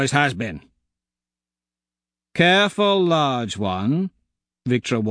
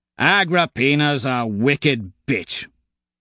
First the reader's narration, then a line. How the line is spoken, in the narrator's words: Kavax grumbles